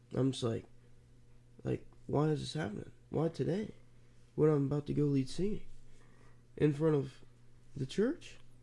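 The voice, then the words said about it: Congested, stuffy-sounding voice. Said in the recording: “you can probably hear it in my voice. ... I'm congested, taking Mucinex.”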